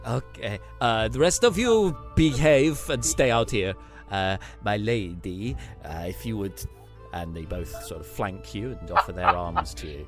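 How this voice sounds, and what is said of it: Put-on theatrical vampire-style accent. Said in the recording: “that accent is very Nandor from What We Do in the Shadows”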